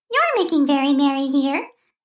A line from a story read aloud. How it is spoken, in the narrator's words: chirped, her voice as clear and lovely as a bell